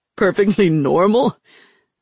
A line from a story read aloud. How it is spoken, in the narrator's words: Nadja laughed out loud